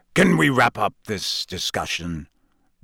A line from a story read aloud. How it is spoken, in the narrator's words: growled Moody